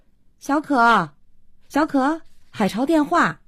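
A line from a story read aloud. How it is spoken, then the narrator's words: Calling out. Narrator (Chinese): 慧娟叫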